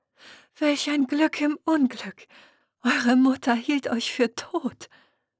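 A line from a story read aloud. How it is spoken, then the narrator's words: Sobbing. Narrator (German): schluchzte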